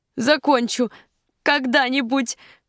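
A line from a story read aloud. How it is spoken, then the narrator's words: Answer amid loud laughter. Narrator (Russian): ответила она и расхохоталась еще сильнее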